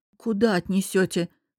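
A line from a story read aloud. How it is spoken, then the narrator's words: Stunned, forced-out words. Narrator (Russian): вздрогнув от его рыка, ошарашенно выдавила я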